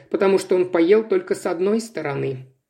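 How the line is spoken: Tired. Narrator (Russian): сказала устало Илса

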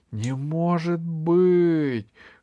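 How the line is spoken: Shouting. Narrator (Russian): кричал Кусандра

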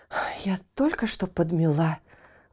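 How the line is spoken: Mother exclaiming. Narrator (Russian): воскликнула мама

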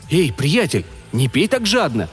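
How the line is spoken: Exclamation. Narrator (Russian): воскликнул

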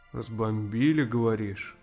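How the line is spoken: Skeptical grunt, older man. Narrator (Russian): хмыкнул дядька

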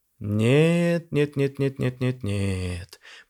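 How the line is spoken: Drawn-out drawl. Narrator (Russian): протянул охранник

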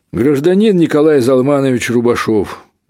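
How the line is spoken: Said loudly, young man. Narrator (Russian): громко сказал молодой работник

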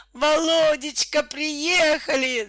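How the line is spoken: Screaming. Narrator (Russian): завопила Наталья

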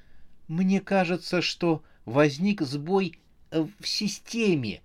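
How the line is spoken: Timid. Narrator (Russian): робко сказала смерть

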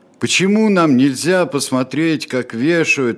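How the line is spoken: Boy's deafening roar. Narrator (Russian): оглушительно взревел мальчик

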